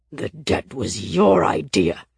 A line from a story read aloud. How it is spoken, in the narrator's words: he snarled